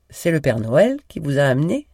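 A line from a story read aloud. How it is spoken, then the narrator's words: Plain. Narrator (French): demanda-t-elle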